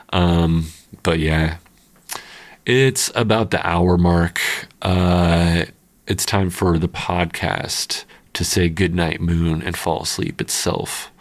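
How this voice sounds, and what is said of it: Froggy, hoarse voice. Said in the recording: “my voice wasn't too froggy on this one”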